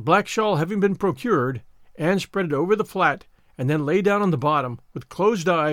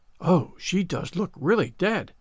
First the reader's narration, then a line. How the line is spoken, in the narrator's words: whispered Ruby Gillis, nervously